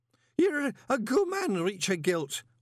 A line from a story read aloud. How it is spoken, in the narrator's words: Horsefry hiccuped